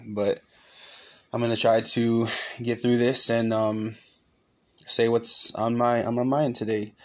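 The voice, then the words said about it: Shaky, sick-sounding voice. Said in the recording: “my voice sounds a little shaky or off, it's just because of me being sick right now”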